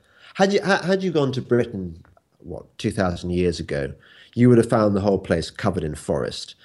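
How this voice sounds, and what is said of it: English accent. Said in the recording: “As you can probably guess by my accent, I'm English.”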